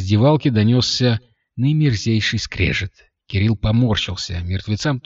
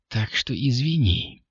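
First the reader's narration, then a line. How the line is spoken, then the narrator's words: Sighing. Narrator (Russian): Девушка вздохнула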